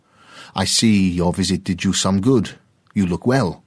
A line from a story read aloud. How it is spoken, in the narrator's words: he called out